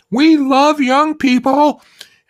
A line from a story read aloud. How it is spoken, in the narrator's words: the woman, who had boldly stepped into the cabin first, shouted